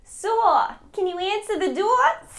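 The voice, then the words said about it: Exaggerated bad New Jersey accent. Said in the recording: “this weird, like, New York, New Jersey accent ... it's so bad ... that terrible accent”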